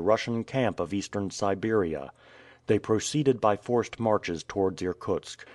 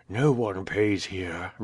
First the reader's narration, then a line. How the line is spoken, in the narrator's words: replied the old man gravely